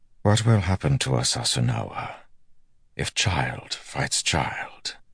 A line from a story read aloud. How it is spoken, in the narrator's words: Galad asked softly